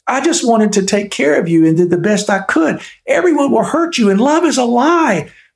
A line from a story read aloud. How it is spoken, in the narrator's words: the ogre shrieked with the voice that sounded like a grasshopper